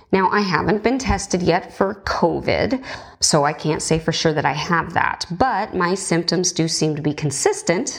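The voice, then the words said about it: Sick-sounding voice. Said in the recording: “perhaps you can hear it in my voice, though I understand I do sound better than I did yesterday, I seem to be sick”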